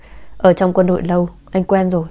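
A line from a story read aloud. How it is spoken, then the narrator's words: Laughing. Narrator (Vietnamese): Trần Tự bật cười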